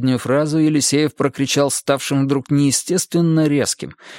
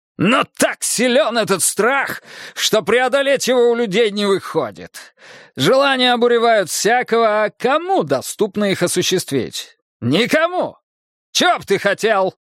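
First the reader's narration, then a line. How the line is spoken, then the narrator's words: Sudden shout. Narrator (Russian): Неожиданно крикнул он на Снежка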